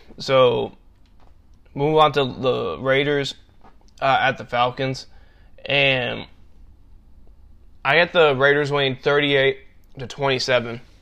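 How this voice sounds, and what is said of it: Nasal, congested voice. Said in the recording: “I've been sounding kind of nasally here. I get really bad allergies in the winter... sounding like nasally or congested... I sound nasally like I've been doing throughout the podcast”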